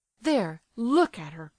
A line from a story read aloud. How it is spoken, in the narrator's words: cried Nastasia, trembling with passion